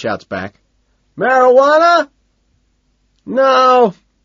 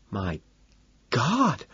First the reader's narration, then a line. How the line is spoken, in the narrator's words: Evelyn gasps